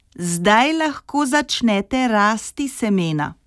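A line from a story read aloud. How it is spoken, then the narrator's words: Very loud. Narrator (Slovenian): Regica je rekla zelo glasno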